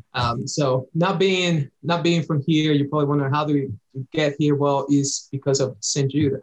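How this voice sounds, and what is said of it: Slight Dominican Spanish accent. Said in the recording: “I'm originally from the Dominican Republic, if you have my picked up in my slight accent.”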